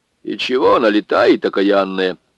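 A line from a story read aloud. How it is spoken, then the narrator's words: Displeased grumble. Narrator (Russian): недовольно проворчала Марфа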